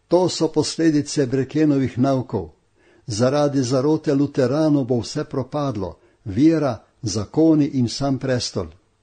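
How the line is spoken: Shouting. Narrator (Slovenian): Vpili so

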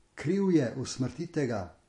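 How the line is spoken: Crowd shouting. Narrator (Slovenian): Množica je vpila

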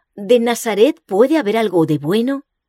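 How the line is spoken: Exclaimed. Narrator (Spanish): Exclamó

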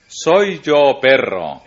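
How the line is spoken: Exclaimed. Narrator (Spanish): exclamó

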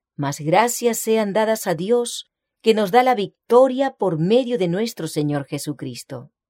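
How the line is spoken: Exclamation. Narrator (Spanish): la fe exclama

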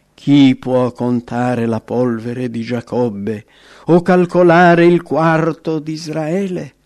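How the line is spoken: Exclaimed. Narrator (Italian): esclamò

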